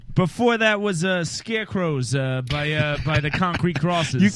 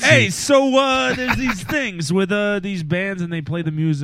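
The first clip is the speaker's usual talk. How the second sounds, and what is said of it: Weak attempt at New York accent. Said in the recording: “you're from New York and you struggle to do a New York accent ... probably better at doing a New York accent than I am”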